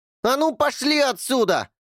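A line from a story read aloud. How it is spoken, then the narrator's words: Yelled. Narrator (Russian): заорал Эрни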